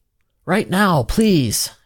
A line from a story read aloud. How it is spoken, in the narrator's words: Ansel exclaimed